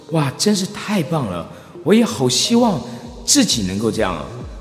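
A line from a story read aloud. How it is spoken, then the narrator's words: Small inner voice. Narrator (Chinese): 你发出的小声音是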